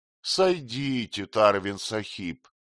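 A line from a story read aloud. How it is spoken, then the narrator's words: Mocking, in English. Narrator (Russian): насмешливо проговорил по-английски тот же голос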